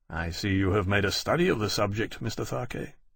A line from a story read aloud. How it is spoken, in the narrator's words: he said a little coldly